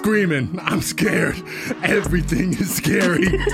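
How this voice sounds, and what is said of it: Growly bear-like rapping voice. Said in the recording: “you sound like a bear”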